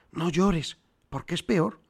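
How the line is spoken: Quiet, low voice. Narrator (Spanish): dijo en voz baja

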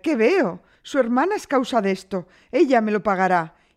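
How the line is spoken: Mother exclaiming. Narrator (Spanish): exclamó la madre

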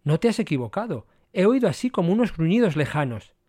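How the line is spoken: Exclaiming. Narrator (Spanish): exclamando

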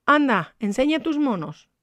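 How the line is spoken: Indulgent exclamation. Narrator (Spanish): exclamó Ignacia como quien se aviene al capricho de un niño

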